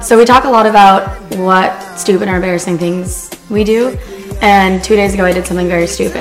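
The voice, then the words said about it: Hoarse, partly lost voice. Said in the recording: “I'm losing my voice a little bit”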